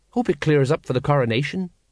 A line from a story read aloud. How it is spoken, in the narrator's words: Colon went on in a worried voice